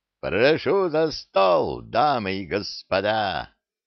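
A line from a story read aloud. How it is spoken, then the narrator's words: Joyful. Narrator (Russian): радостно сказал Сильвер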